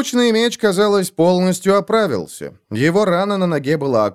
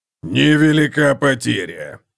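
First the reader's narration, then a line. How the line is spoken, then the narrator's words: Grumbled. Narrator (Russian): проворчал Готрик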